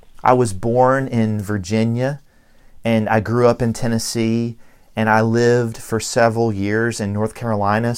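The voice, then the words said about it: Southern American accent. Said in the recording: “my Southern accent follows me around everywhere”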